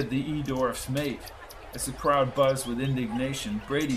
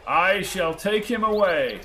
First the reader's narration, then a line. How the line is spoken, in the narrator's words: shouted Antovian